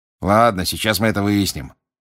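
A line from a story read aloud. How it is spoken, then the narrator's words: Grumbling. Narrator (Russian): проворчал мистер Диггери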